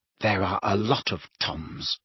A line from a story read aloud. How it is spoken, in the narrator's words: muttered Riddle